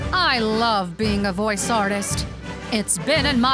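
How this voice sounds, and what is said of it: Usual voice. Nothing is said of it.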